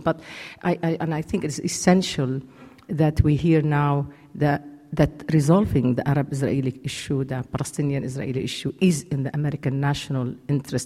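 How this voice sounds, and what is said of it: Lebanese-accented English. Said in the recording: “I do come from Lebanon ... forget about the accent”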